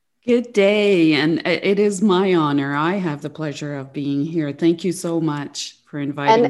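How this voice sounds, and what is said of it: French Canadian accent. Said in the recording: “you're French and you're Gatineau, Canada ... the beautiful accent that you have”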